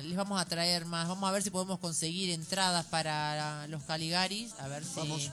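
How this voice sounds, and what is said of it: Radio announcer voice. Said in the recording (Spanish): “¿Qué voz de locutora, señora?”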